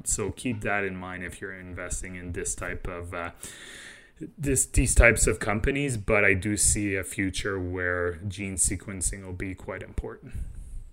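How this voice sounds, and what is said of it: French-Canadian accent. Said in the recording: “your French-Canadian accent ... The way you said genetic, so French-Canadian”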